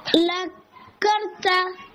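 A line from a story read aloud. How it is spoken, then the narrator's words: Plain. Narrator (Spanish): dijo el león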